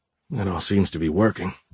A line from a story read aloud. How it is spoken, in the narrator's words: Giles muttered